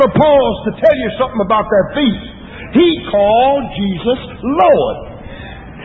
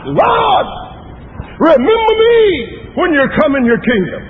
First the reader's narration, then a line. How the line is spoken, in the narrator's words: that thief turned toward the cross in the middle, and he cried out